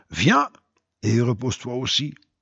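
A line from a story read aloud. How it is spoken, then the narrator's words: Angel whispering. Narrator (French): Et cet ange, qui se repose sur cette pierre, nous chuchote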